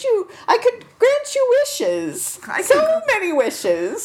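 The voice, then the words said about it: Whimsical fairy godmother character voice. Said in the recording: “my fairy goth mother voice ... the battle of the bad accents ... Is this an accent really”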